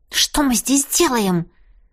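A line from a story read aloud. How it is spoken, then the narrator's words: Hissed. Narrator (Russian): прошипела близнецам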